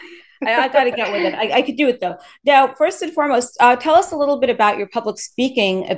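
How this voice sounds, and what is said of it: Usual voice. Nothing is said of it.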